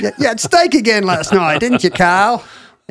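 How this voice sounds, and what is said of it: Put-on Australian accent, not good. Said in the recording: “your Australian accent, which we hardly ever get ... It's not good and I've never tried it before”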